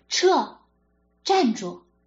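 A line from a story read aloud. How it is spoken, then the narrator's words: Shouting. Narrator (Chinese): 他喊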